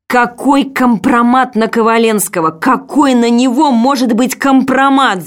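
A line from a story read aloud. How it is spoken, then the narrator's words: Screaming while fainting. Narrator (Russian): закричала я, теряя сознание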